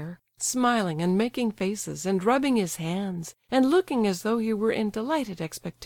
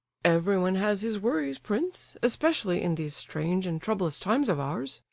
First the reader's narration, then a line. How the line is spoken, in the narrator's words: Lebedev replied dryly, and with the air of a man disappointed of his reasonable expectations